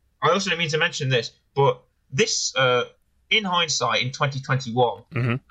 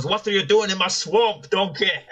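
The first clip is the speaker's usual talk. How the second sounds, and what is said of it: Bad Scottish accent, Shrek impression. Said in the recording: “the accent. It doesn't quite have the same twang... I can try the accent... It's just bad Scottish.”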